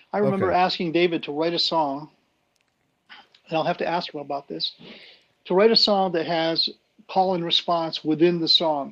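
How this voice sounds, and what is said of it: Weak voice that comes and goes. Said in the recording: “forgive my voice. I'm just getting over a nasty flu ... My voice comes and goes”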